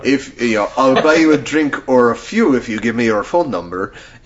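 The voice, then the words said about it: Bad put-on French accent. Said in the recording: “that was a horrible French accent”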